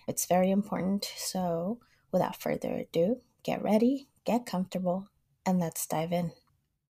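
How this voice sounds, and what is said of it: Raspy, congested sick voice. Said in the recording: “I am a little bit under the weather today, so excuse me in advance for my raspy, congested voice”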